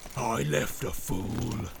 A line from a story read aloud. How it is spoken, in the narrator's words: snarled Grishnak